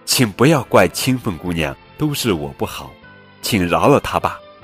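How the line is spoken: Loud pleading. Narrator (Chinese): 耿去病大声说

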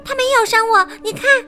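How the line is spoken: Hurried. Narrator (Chinese): 我急忙说

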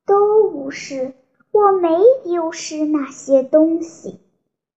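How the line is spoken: Sighing. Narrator (Chinese): 他叹了一口气，说

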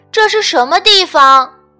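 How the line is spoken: Loud question. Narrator (Chinese): 沃尔特大声问

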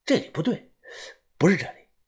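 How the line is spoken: Muttering to himself. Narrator (Chinese): 小道士自言自语的嘀咕啊

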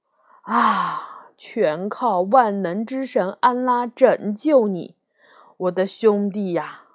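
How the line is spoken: Surprised remorseful sigh. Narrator (Chinese): 蠢汉一听，感到惊讶，又深深的愧疚，叹道

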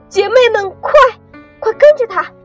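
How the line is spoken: Urgent shout. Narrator (Chinese): 蓝天仙子赶紧喊道

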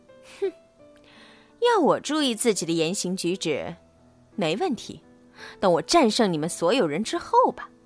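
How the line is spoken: Snickering to himself. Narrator (Chinese): 路霸窃笑一声，自言自语说

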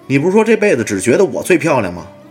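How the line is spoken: Wife shouting. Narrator (Chinese): 太太喊

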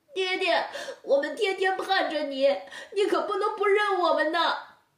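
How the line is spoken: Crying. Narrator (Chinese): 东哥春妹哭道

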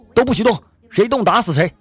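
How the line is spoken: Shouting. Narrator (Chinese): 一个劫匪大喊

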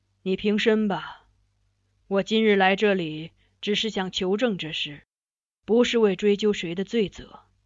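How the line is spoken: Sighing. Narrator (Chinese): 他叹了叹气，道

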